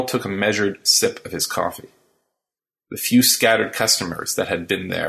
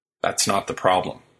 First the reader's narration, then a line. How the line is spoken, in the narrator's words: said Carl